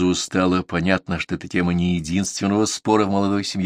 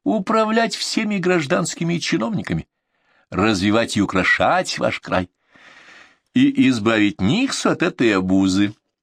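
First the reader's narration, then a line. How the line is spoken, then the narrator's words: Giggling. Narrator (Russian): хихикнула Дагмара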